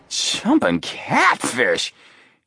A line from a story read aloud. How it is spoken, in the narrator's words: He exclaimed